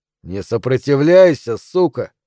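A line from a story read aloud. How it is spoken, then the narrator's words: Threatening. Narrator (Russian): сказал он угрожающим тоном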